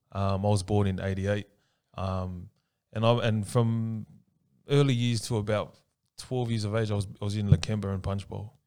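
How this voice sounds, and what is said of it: Western Sydney Australian accent. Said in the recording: “that's why my accent's like this, bro”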